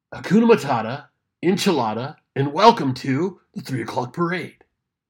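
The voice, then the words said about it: Imitates another person's voice. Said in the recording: “my best impression of Drunky”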